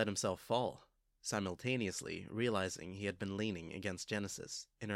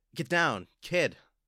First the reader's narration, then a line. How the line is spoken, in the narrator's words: Clockblocker shout